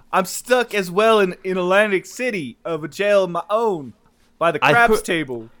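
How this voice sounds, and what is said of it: Put-on New Jersey accent. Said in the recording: “your perfect Jersey accent ... a fucking Christopher Walken accent”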